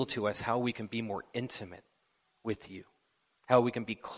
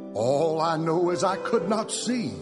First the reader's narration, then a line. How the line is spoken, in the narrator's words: Bartimaeus cried aloud